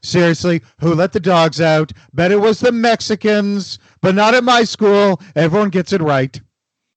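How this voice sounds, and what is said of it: Bad Donald Trump impression. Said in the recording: “now I'm just imagining Trump singing ... that's a horrible Trump impersonation.”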